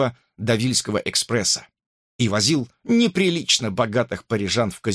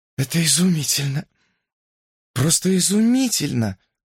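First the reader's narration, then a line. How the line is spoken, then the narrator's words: Breathless, awed. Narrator (Russian): выдохнула Эмми, пораженная окружающей обстановкой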